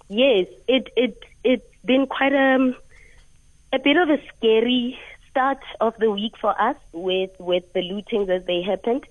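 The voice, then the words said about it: Voice sounds slightly off. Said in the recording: “Excuse my voice, it's a bit of blue.”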